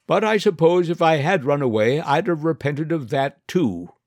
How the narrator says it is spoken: as the train gathered speed and the distance between us widened, she shouted after us

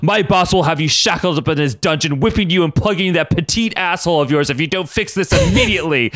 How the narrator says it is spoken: Ruckus yelled, glass shattering around him

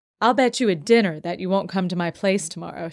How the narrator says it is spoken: she laughed

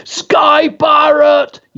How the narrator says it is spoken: yelled

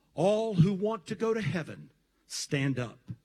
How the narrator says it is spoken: the pastor asked in a very calm voice

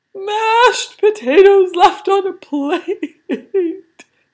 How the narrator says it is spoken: he cried

